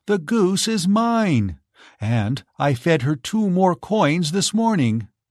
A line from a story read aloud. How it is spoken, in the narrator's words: cried Giselle